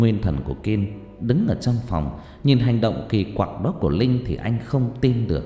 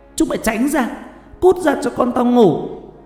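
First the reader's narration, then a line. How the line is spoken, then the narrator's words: Rising to shouting. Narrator (Vietnamese): Dần dần cô bắt đầu to tiếng, chuyển thành quát tháo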